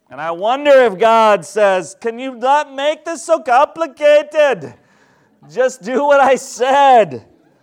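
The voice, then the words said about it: Unplaceable put-on accent for God. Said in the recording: “I don't know why he took that accent. I don't even know what that was.”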